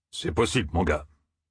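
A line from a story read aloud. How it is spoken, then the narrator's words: Mumbled. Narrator (French): marmonna Domon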